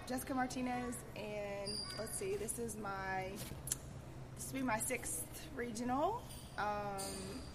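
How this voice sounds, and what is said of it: Shaky voice, sounds sick. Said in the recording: “I have a cold. Um, so my voice is a little shaky”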